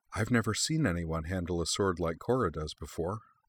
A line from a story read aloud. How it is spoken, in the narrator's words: Juniper murmured to her sensei